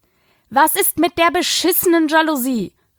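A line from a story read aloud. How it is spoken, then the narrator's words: Calling after someone. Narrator (German): rief sie ihm hinterher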